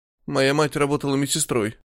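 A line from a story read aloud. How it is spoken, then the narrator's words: Mumbling. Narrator (Russian): промямлил Миллиган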